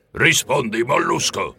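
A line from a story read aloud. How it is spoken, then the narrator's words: Pressing, roaring. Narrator (Italian): mi incalzò ruggendo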